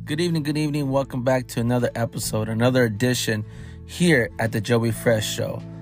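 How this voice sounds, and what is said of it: Slightly raspy, hoarse voice. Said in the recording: “my voice is a little raspy because all the yelling I did”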